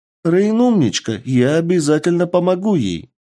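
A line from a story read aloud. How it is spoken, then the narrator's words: Woman's exclamation. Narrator (Russian): воскликнула одна из женщин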